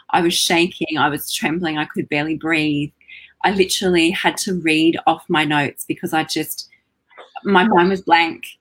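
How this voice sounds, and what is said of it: Australian-accented woman's voice. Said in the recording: “this lady with an Australian accent”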